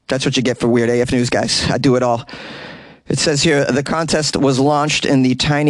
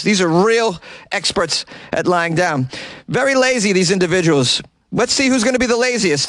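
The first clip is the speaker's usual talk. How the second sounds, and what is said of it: Sports play-by-play announcer impression. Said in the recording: “my impression of a play-by-play announcer covering the world's laziest competition event”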